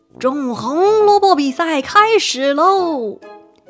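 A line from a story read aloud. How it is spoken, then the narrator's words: Shouting with effort. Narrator (Chinese): 牛伯伯卖力大喊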